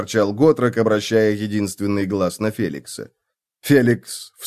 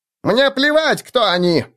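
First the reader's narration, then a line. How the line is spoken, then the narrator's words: Halfling's shriek. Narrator (Russian): взвизгнул полурослик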